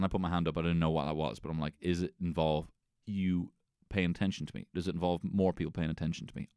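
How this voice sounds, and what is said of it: Usual voice. Nothing is said of it.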